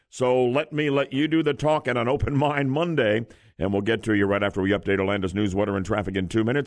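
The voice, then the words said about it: Slightly rough, hoarse voice. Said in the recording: “My voice is a little rocky from the dry, cool weather”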